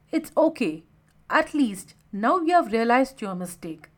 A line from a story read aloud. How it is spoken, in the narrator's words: Rahul said in a consoling tone